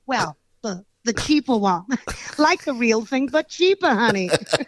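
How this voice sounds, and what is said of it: Put-on American accent, imitating a singer. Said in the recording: “let's hear a little bit of this American accent of yours ... Tina Turner style”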